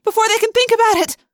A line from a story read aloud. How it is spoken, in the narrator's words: I yelled